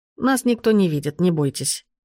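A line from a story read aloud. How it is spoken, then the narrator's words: Man's smirking snort. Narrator (Russian): хмыкнул мужчина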